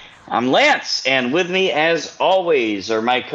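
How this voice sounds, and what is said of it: Usual voice. Nothing is said of it.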